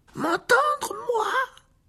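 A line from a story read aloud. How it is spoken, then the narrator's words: Higher-pitched than usual. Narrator (French): dit Ron d'une voix plus aiguë qu'à l'ordinaire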